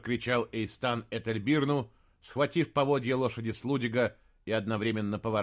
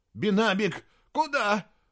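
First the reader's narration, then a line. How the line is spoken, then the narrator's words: Young man shouting, trembling voice. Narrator (Russian): прокричал юноша дрогнувшим голосом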